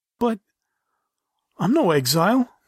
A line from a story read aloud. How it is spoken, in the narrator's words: the pleading snow leopard said